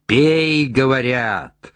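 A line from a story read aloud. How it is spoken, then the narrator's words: Monster bellowing. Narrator (Russian): заорало чудовище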